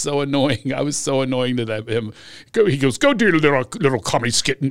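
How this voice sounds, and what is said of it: Usual voice. Nothing is said of it.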